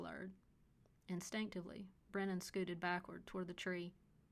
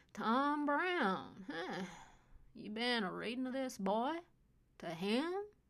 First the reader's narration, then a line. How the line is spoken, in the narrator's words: Byron slurred at Brennan